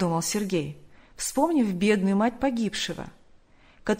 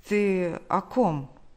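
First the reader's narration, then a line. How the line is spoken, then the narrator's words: Stammering question. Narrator (Russian): он, заикаясь, спросил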